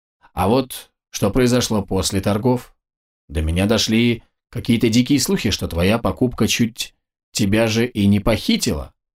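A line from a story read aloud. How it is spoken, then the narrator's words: Even tone. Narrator (Russian): ровным тоном произнес Абрахам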